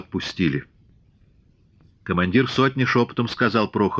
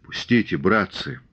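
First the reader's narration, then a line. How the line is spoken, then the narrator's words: Dejected, sinking plea. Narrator (Russian): уже другим упавшим голосом попросил Григорий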